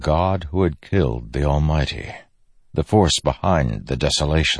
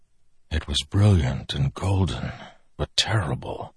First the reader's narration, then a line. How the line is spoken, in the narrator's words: Dalinar whispered